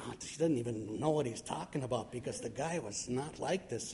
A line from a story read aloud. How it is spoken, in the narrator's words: the family's whispering to each other, and they're saying